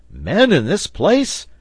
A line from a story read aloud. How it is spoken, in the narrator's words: cried the reporter